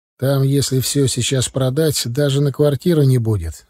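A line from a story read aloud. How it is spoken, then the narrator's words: Calm. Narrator (Russian): спокойно сказал я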